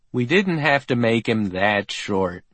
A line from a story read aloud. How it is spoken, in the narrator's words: Al Jean sighed